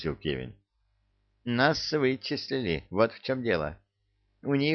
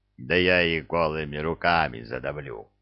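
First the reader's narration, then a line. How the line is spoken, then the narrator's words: Contemptuous troll growl. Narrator (Russian): презрительно рыкнул тролль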